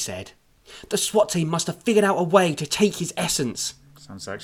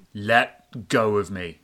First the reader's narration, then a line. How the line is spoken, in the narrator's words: MC said menacingly